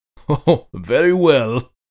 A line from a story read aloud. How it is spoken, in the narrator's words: laughed Toza